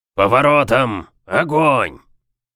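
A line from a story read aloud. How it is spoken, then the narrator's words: Barked command. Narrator (Russian): Рявкнул Брукс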